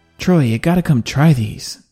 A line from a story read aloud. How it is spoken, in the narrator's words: said Jack